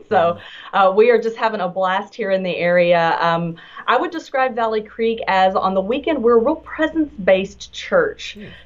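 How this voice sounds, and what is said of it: Texan accent. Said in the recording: “bear with my accent. I am a native Texan”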